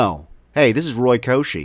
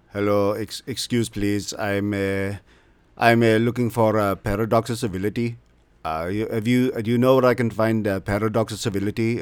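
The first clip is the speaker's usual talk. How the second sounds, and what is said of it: Put-on Indian accent. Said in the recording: “That was me the whole time acting. ... I'm Indian, but I don't have an Indian accent.”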